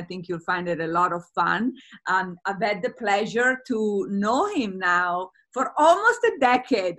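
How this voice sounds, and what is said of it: Italian accent. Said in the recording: “I have an Italian accent.”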